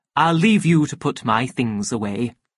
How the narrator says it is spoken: he went on in the same official tone

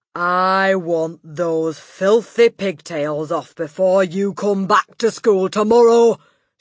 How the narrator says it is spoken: she barked

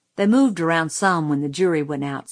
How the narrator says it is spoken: said Reverend Sykes

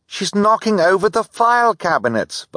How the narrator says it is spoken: Violet cried

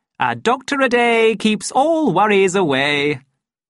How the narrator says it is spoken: he added cheerfully

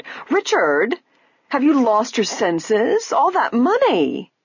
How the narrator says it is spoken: his wife exclaimed

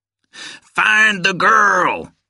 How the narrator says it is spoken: he screamed

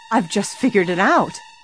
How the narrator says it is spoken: Suddenly, Nancy cried

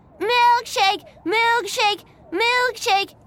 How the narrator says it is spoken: shouted

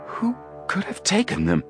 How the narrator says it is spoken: Joe gasped

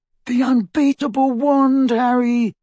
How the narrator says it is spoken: moaned Ron

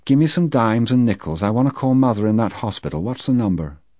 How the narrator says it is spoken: she said in that neutral voice that hurt me so

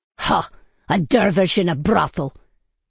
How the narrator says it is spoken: Baybars snorted

